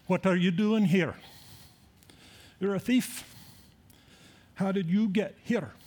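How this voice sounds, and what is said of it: American attempting a Scottish accent. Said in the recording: “I'll try my Scottish accent ... An American doing a Scottish accent”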